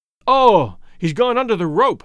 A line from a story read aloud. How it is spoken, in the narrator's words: gasped R